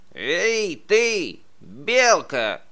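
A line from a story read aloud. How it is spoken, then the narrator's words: Badger shouting. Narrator (Russian): крикнул барсук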